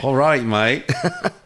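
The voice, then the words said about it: Bad put-on Australian accent. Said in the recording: “Let's do the rest of this interview with my bad Australian accent ... My Australian accent is really shit”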